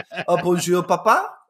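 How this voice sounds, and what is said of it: Mock French accent. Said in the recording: “If they started walking around just being French.”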